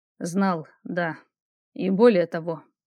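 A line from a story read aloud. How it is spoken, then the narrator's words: Man sighing. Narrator (Russian): вздохнул мужчина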